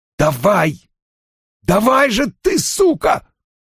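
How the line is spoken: Sharp straining exhale. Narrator (Russian): Резко выдохнул он

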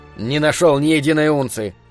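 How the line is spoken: Grumbling mutter. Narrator (Russian): буркнул он

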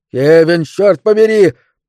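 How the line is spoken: Roaring. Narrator (Russian): проревел мистер Делевин

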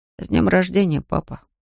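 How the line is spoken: Quiet. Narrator (Russian): тихо произнес он

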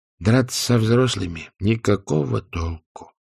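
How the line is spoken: Gloomy. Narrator (Russian): мрачно заметил Уэнсли Дейл

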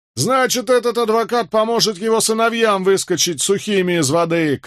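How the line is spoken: Shouted. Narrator (Russian): крикнул кто-то

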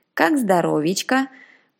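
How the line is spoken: Very low growl. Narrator (Russian): прорычал он таким низким тембром

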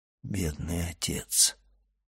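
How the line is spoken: Whisper, priest. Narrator (Russian): прошептал священник

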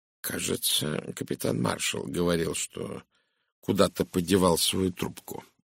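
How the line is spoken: Thoughtful mumble. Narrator (Russian): задумчиво пробормотал Пуаро

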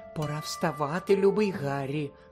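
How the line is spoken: Whispered. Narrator (Ukrainian): прошепотіла вона

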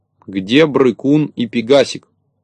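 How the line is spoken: Stern question. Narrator (Russian): строго спросил

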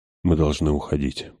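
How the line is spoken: Whispered. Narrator (Russian): прошептал он

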